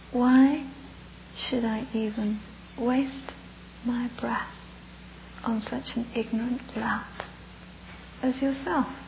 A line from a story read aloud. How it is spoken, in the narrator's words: the little Buddhist monk, very gently, very calmly, looks up at this huge guy, and he says to him